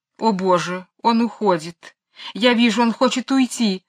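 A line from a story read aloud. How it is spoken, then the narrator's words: Sobbing. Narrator (Russian): рыдала мисс Ларк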